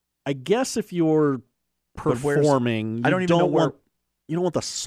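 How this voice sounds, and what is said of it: Usual voice. Nothing is said of it.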